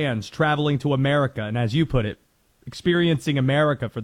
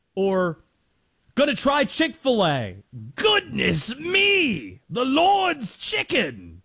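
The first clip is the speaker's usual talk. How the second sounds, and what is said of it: Put-on Australian or English accent. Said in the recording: “I can't do any other accent. They're all gonna sound Australian or English. Some combination of the two.”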